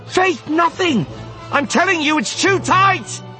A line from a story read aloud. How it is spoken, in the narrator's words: she shouted